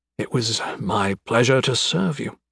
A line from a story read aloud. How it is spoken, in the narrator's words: said sleepily